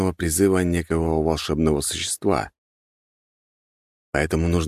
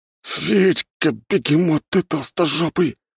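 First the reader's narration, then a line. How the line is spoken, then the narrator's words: Moaning. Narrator (Russian): простонал Петр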